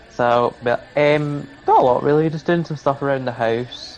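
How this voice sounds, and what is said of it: Scottish accent. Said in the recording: “I sense a Scottish accent there”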